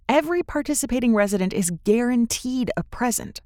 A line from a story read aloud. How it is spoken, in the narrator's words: she says